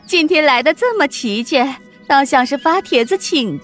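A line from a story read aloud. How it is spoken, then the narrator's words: Laughing. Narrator (Chinese): 凤姐笑着说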